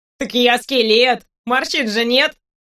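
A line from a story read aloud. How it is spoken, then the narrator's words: Laughing. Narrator (Russian): рассмеялся Санс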